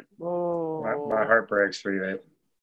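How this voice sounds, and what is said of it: Sarcastic-sounding delivery. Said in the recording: “That sounds like I'm being sarcastic. ... totally sound like you're being complete sarcasm there.”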